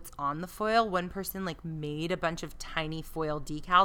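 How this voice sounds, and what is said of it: Usual voice. Nothing is said of it.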